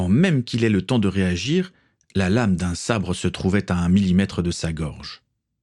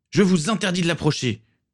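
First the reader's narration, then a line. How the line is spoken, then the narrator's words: Teenager roaring. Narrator (French): rugit l'adolescent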